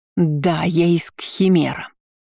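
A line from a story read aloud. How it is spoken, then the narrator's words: Angry exhale. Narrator (Russian): зло выдохнула она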